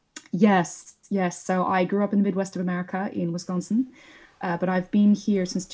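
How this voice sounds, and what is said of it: American accent. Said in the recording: “I hear an American accent,”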